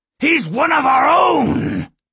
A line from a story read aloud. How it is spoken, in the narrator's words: Skema shouted